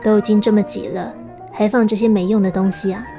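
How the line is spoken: Flat, indifferent. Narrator (Chinese): 阿佩淡淡的说

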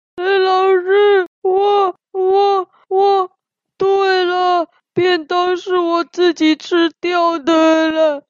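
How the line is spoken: Crying while speaking. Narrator (Chinese): 西西边哭边说

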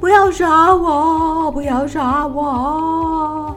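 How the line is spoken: Hurried loud yell. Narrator (Chinese): 他连忙又大叫起来

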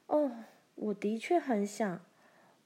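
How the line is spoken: Soft amazed exclamation. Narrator (Chinese): 玛丽轻声惊叹着

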